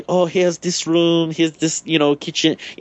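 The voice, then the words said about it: Patronizing put-on Asian accent. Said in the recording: “I'm going to do a really patronizing Asian accent”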